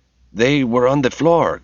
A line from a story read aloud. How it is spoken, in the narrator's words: Kim said, desperately trying to think of something